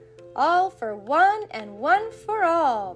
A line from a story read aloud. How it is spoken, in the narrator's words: the four friends cried